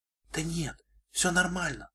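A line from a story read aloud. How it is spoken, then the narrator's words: Whisper. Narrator (Russian): прошептала Шайнблиз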